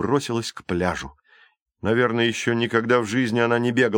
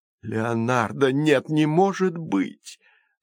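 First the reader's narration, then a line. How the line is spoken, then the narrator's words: Moaning. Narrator (Russian): застонала Калипсо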